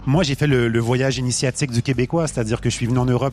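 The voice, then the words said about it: Québécois French accent. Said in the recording (French): “On le reconnaît à ton accent, t'es québécois.”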